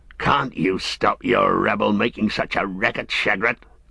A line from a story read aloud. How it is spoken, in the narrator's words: grunted the one